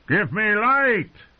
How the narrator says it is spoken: he roared

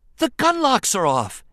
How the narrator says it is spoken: Anakin exclaimed with a joyful shout

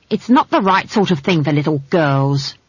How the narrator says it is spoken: snapped the barman's wife

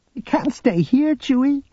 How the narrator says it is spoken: Jaina cried

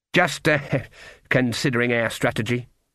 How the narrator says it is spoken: she muttered

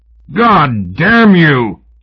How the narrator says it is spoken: Houston roared

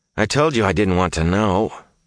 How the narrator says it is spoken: Matt groaned

